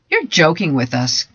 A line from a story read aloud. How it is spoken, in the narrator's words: giggled Jane